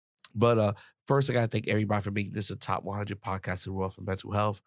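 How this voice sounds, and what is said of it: Hoarse, strained voice. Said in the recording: “my throat sounds a little bit ranchy today... doing a lot of shouting and yelling... my voice is a little bit, I lost my voice.”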